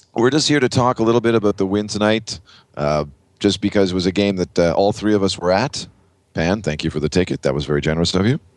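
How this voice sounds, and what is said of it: Rough, hoarse voice. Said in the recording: “My voice is pretty rough as well, but it was just from yelling all night long”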